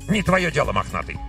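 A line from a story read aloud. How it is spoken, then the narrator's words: Snapped back. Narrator (Russian): огрызнулся Еремей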